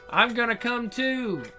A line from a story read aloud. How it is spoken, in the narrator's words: I shout, unable to hold back the oncoming wave any longer